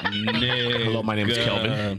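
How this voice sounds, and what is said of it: Mock corporate white man voice. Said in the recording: “normally, he sounds like a corporate white man.”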